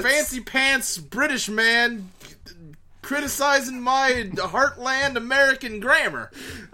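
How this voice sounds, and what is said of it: Put-on American southern accent. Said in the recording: “I unconsciously slipped into a southern accent when I went on that tirade.”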